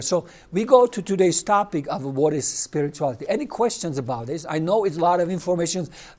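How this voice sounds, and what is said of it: Non-native English accent. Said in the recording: “with my accent, with my English, it can be a little confusing”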